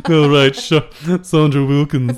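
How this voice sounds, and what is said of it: Imitates another person's voice. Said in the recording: “my impression is getting more stewy than it should... So it's not how Charlotte Rampling talks”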